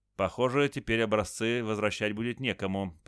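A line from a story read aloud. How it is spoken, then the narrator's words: Mutter. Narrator (Russian): пробормотал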